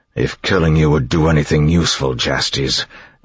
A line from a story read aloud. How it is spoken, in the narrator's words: Elend growled